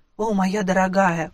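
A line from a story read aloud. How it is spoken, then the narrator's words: Man's moan. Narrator (Russian): простонал мой жених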